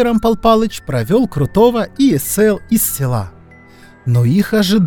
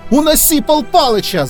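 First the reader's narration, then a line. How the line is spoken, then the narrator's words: Yelling. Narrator (Russian): заорал Крутой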